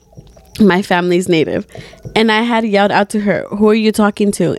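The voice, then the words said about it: Put-on Native American accent. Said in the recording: “talking in a hard native accent ... a hard Native American accent”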